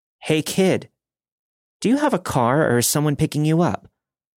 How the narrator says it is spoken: She then called out

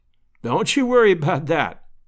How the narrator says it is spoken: laughed Lovell

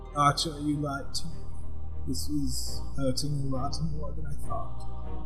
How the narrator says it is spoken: you hear him mutter

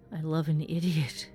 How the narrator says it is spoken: she groans

